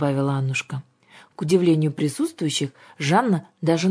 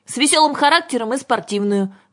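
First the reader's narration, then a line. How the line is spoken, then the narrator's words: Shout. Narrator (Russian): крикнула Юлька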